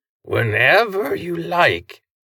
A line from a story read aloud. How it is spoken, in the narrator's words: the eerie chorus of hissing, vibrating, and rubbing body parts said, the tone conveying good humor